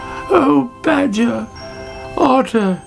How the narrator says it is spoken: she cried

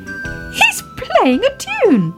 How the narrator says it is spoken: cried Baby Ted

